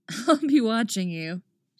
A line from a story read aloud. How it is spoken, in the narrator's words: she said with a laugh